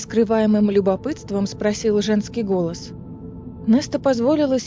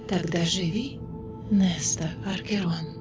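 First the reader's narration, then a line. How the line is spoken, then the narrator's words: Gentle wise whisper. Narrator (Russian): прошептал этот нежный, мудрый голос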